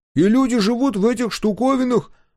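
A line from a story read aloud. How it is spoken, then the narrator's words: Exclaiming over traffic noise. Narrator (Russian): воскликнул Дозер, перекрывая грохот тяжелого транспорта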